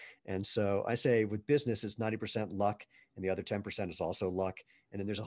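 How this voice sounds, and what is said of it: Usual voice. Nothing is said of it.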